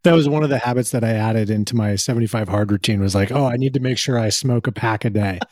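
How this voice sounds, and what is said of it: Hoarse, slightly lost voice. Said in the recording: “losing my voice a little bit. So that's why I'm a little horsey.”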